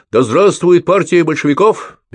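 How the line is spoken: Shouted. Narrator (Russian): выкрикнул Петро

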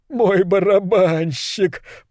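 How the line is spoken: Sobbing with joy. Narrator (Russian): произнес Норрис, рыдая от радости, как будто только что заполучил восьмое чудо света

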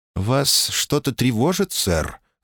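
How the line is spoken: Casual everyday tone. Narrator (Russian): заметила таким будничным тоном, словно говорила о погоде

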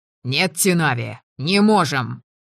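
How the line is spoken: Impatient barking shout. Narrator (Russian): гаркнул он, теряя терпение

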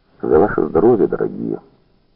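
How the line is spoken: Quiet, simple. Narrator (Russian): Сухиничев сказал негромко, просто, точно они были тут

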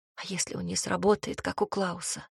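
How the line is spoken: Panicked whisper. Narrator (Russian): прошептала с какой-то панической интонацией

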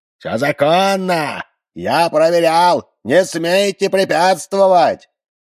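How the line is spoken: Piercing shout over rotors. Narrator (Russian): Он пронзительным голосом, перекрывая шум винтов, кричал

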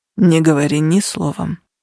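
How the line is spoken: Grim command. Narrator (Russian): мрачным тоном велел Нигер

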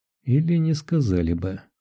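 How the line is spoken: Gloomy remark. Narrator (Russian): мрачно заметила Лиза

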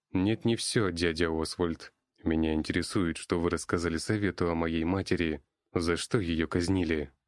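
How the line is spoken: Plain. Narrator (Russian): спросил Эльфин

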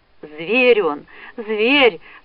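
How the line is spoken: Sobbing girl. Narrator (Russian): всхлипывала девушка

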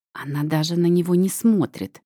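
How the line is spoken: Spiteful hissing. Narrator (Russian): снова доносится до меня шипение змеюк

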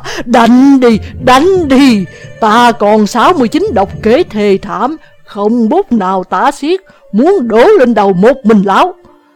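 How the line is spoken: Guffawing, shouting. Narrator (Vietnamese): lại cười hô hố la lên

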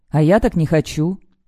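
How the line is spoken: Sharp, curt. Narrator (Russian): резко бросает Риона

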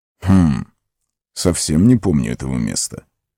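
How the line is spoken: Muttered. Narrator (Russian): пробормотал Гэндальф

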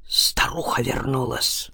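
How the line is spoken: Breathed out. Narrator (Russian): выдохнул Назаров

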